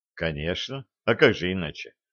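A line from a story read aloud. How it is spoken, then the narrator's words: Calm reply. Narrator (Russian): спокойно ответил Трошин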